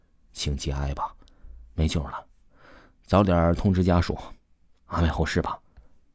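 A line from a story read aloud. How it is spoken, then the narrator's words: Young doctor, panting, consoling. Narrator (Chinese): 那个年轻的医生最终还是喘着粗气儿安慰丽说道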